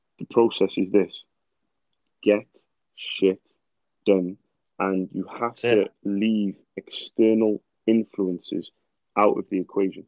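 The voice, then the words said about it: Non-American English accent. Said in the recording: “oh, sorry, I keep saying this. We've got a lot of American listeners. ... I like your accent.”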